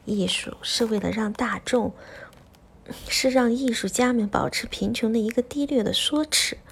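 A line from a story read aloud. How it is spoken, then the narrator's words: Whispering. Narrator (Chinese): 他在他的耳边轻声说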